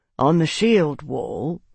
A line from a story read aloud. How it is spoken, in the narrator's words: Marcus said quietly